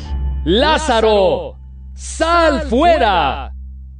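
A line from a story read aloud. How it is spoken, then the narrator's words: Loud exclamation. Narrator (Spanish): exclamó Jesús con fuerte voz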